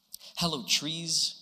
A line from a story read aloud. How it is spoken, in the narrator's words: God said